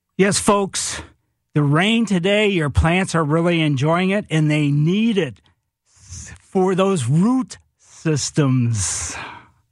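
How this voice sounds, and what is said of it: Impression of radio host Mike Miller. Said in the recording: “good Mike Miller impression,”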